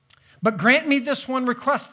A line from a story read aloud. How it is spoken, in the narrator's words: the daughter says